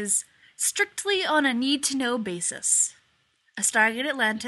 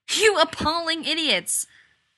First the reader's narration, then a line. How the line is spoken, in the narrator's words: McKay had been yelling